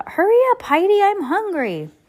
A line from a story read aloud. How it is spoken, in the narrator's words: Lucy called out